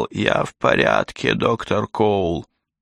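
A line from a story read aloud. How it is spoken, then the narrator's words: Moaning. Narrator (Russian): Он простонал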